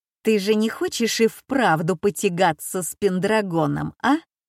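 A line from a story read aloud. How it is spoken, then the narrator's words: Mocking question. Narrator (Russian): насмешливо спрашивает Тарквин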